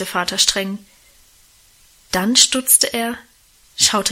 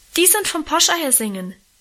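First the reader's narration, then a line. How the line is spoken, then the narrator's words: Helpful call. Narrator (German): rief ich hilfsbereit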